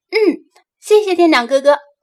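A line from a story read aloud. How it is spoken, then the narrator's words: Laughing. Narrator (Chinese): 他笑道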